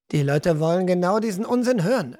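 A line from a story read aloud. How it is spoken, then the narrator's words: Calm reply. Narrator (German): erwiderte ruhig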